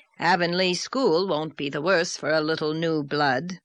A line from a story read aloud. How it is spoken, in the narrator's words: said Marilla dryly